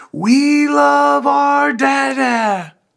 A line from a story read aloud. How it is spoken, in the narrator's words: daughters will get sort of embarrassed, but then they will reciprocate, and they will yell